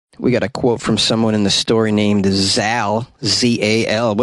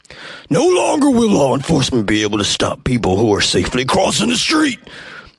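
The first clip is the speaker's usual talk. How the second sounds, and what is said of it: Randy 'Macho Man' Savage impression. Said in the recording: “going to do a Randy Macho Man impression”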